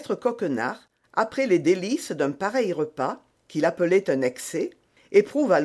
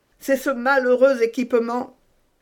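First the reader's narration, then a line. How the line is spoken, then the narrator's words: Woman moaning. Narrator (French): dit la procureuse en gémissant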